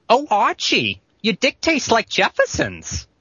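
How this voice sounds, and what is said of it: Imitates another person's voice. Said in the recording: “I was going to do the late Gene Stapleton from All in the Family ... Gene Stapleton.”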